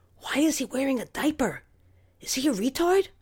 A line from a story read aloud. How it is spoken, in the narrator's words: I whispered